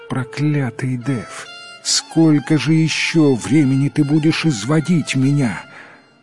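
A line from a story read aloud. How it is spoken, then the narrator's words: Moaning. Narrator (Russian): фея застонала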